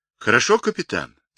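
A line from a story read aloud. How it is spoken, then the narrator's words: Embarrassed, joyful reply. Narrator (Russian): смущенно и радостно ответил Павлик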